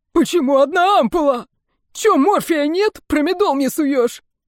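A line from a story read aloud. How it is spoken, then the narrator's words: Roaring. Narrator (Russian): взревел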